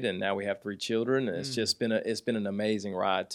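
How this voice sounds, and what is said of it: Southern US country accent. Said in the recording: “Now I have the country accent,”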